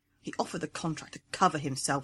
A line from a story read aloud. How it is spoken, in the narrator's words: she muttered